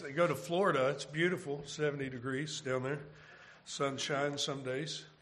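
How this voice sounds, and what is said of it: Rough, congested voice. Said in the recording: “my voice is a little rough, it, I've had a sinus... I had a head cold”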